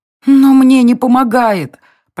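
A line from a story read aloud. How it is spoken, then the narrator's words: Moaned. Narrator (Russian): простонала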